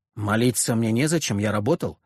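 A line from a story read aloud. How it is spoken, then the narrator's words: Calm, proud. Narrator (Russian): спокойно, даже с гордостью ответил Леонид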